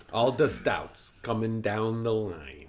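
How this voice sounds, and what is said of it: Silly put-on accent. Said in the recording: “you're just doing an accent? ... I was just doing a silly accent.”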